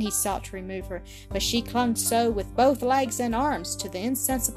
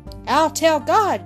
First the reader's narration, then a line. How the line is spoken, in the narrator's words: shrieked Ginevra, with fresh energy of defensive love and wrath